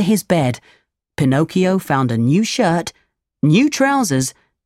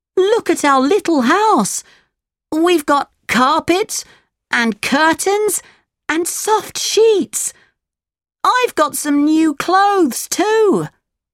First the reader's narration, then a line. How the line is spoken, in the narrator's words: he cried